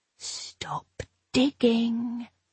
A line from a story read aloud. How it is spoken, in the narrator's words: hissed the voice inside my head